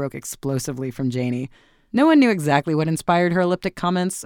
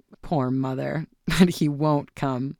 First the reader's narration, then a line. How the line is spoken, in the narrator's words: her son laughed